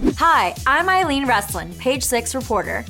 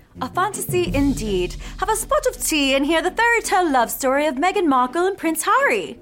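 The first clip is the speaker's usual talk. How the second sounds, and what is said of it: Put-on accent. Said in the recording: “Are you gonna do the accent the whole time?”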